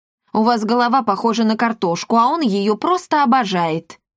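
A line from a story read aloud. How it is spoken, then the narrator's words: Loud laughter. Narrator (Russian): расхохотались во весь голос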